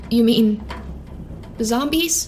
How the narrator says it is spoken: Rose asked, her voice small and shaking

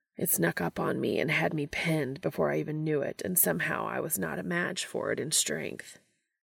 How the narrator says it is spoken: Castiel mutters

